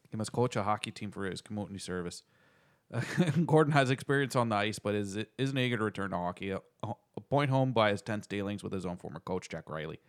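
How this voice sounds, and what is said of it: Attempted Canadian accent sounding Irish. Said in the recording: “I'm not going to do it in the full Canadian accent. I could try. ... That's too Irish. ... Sounds way too Irish.”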